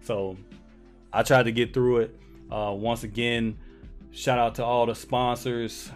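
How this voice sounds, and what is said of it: Voice sounds a little off. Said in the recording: “I apologize for my voice. I know it sounds a little bit off, but this weather, man”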